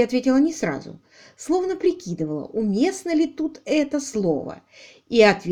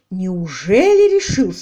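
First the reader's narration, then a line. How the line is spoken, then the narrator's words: Exclamation. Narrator (Russian): воскликнул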